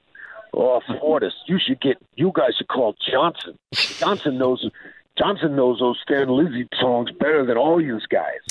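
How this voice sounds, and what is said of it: Imitated East Coast American accent. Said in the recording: “in his very East Coast accent ... I like hearing my accent said back to me”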